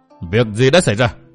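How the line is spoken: Angry shouted question. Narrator (Vietnamese): ông quát hỏi

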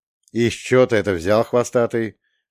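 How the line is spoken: Smirking question. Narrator (Russian): хмыкнув, спросил

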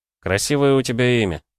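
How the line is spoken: Sigh. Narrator (Russian): вздохнул

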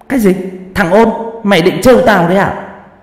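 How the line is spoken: Woman's shout. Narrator (Vietnamese): Bà cả hét lên

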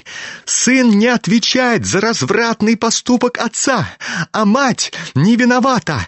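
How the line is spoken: Fervent shriek. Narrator (Russian): жаром провизжал Ипполит

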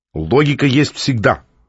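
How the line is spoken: Stern reply. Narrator (Russian): строго ответил Котя

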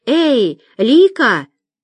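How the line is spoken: Uneasy shout. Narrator (Russian): Почувствовав некоторое беспокойство, Зинаида крикнула

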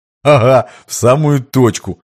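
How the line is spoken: Chuckling confirmation. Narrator (Russian): хохотнув, подтвердил Минаев

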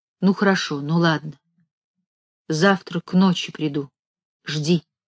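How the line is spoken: Quiet. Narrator (Russian): сказал тихо

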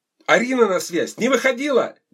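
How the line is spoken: Loud yelling into phone. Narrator (Russian): Ди орала в трубку громко, как на стадионе

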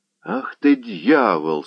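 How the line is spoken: Plain. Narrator (Russian): сказал пан Заглоба

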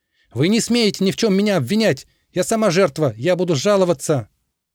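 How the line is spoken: Shouting. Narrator (Russian): Она еще что-то кричала им в спины

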